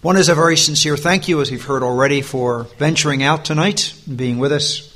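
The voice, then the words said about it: American accent. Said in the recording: “I guess you call it a Yankee twang here. We wouldn't call it Yankee where I come from, but my American accent”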